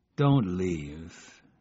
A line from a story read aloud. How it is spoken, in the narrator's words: he mumbled